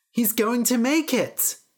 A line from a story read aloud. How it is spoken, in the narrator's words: the people cried